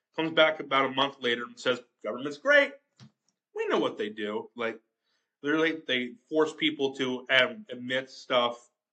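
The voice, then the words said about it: Strained, off-sounding voice, sore throat. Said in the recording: “My voice hasn't been the best today ... my voice is bad right now ... my allergies are getting bad. My throat ... my voice sounds off”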